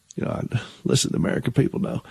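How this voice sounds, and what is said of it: Bill Clinton impression, southern accent. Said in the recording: “I do a pretty good Bill Clinton imitation ... I can do a pretty good Bill Clinton imitation impression ... it was pretty spot on ... I can make it work in a southern accent”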